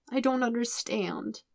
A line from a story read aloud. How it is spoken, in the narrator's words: Aang says miserably